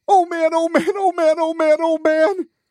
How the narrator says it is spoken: Horton squealed

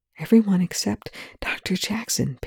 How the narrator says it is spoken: Perry whispers

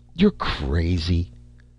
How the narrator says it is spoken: He muttered

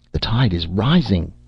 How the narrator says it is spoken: Charlie exclaimed

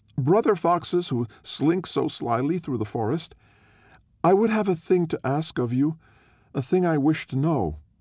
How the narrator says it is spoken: called out

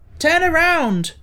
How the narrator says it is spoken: cried Tip to the Gump

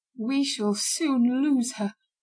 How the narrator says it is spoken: he murmured in a tearful voice

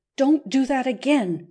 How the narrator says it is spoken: cried Phil, very red

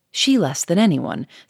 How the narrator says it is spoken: said Gouchard quickly

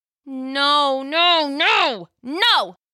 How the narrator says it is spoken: Jill cried as the mutant drove her again into the metal panel

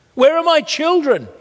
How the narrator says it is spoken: screamed

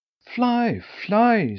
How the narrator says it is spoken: screamed Thumbietot too

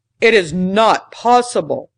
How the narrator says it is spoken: the other exclaimed

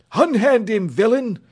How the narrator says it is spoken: cried Sir Hokus

